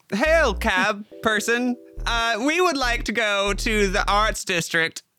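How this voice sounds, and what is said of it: Attempted local townsperson accent. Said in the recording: “That's her best attempt at a towny accent.”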